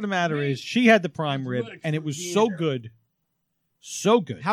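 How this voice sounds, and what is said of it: Usual voice. Nothing is said of it.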